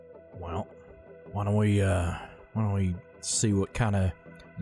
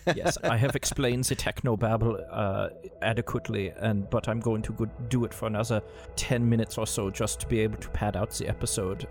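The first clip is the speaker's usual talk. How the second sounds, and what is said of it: Put-on German accent. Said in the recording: “show that I know how to do a German accent. This is very good.”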